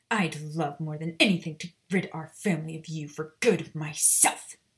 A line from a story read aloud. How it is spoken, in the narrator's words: Bella snapped